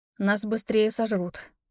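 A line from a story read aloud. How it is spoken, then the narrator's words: Muttering under breath. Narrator (Russian): под нос себе пробормотала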